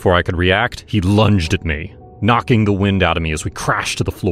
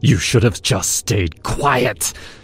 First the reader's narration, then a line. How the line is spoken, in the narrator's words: he hissed